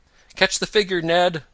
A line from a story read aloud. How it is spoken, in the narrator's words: Tom cried